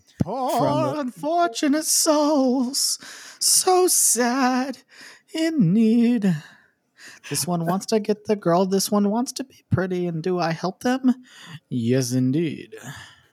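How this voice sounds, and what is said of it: Sung impression of Ursula's voice. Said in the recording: “So that was ... not Pat Carroll, but he did a pretty good impression. ... Can you really tell the difference? ... it was so hard. I was like, she's back.”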